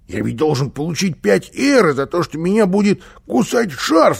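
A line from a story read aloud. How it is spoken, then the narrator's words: Frightened interruption. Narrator (Russian): испуганно перебил его Карлсон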